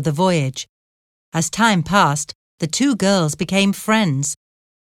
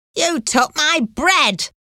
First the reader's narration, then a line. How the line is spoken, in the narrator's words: an angry woman shouted at Carol